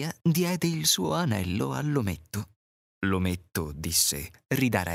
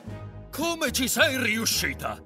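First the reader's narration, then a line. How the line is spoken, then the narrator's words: Shouted. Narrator (Italian): gridò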